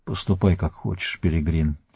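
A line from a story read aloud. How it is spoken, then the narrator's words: Quiet reply, male. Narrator (Russian): тихо ответил он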